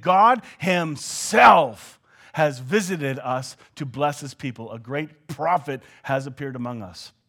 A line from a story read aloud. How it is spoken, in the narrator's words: they shouted praises to God, saying